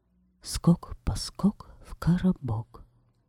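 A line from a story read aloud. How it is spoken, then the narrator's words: Whisper. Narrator (Russian): Она прошептала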